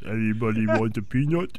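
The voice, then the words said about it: Imitates another person's voice. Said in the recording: “That was a terrible Andre. ... I can't do it. ... Can we have a whole show of you doing that voice?”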